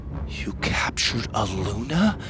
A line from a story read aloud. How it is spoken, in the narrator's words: Winnie whispered